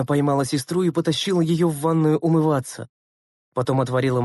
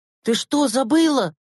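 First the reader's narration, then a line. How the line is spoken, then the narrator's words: Exclaimed. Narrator (Russian): воскликнул Андрейка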